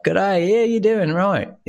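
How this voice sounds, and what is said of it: Poor imitation of outback Australian accent. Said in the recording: “My imitation of your accent is horrible ... my accents come out as a Jamaican Irish person ... a little bit more outback Australian”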